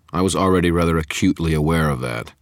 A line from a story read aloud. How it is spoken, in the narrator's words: Marconi said, his voice dry